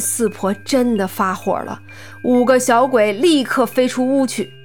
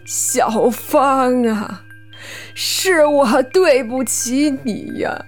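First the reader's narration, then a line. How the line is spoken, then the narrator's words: Tearful lament. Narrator (Chinese): 四婆 哭诉道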